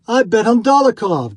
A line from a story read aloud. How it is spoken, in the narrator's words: cried a third